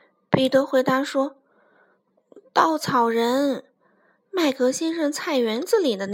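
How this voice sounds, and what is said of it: Usual voice. Nothing is said of it.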